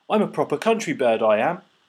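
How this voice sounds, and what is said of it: Bad put-on British accent. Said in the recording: “put on his best British accent ... the worst British accent I have ever heard. Ever.”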